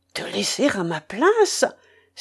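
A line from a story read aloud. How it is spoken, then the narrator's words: Astonished exclamation. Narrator (French): s'écria Cédric, stupéfait de la proposition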